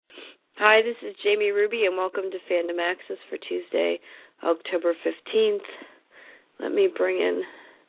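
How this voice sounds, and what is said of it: Hoarse, deeper, croaky voice. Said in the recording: “My voice has gotten worse since last week ... You sound a little bit deeper voice than usual ... I sounded like I did on the set, like a frog.”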